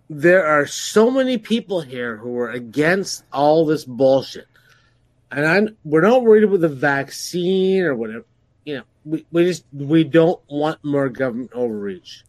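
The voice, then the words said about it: Drunk-sounding voice. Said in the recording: “excuse my voice. I've been drunk while I've been talking to you. ... we can tell”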